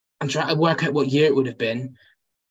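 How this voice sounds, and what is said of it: Foreign accent, not local. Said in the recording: “as you can tell from my accent, I'm not from your shores”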